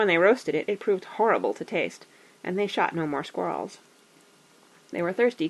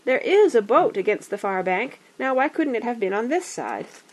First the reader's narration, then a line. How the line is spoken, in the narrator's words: Bilbo, kneeling on the brink and peering forward, cried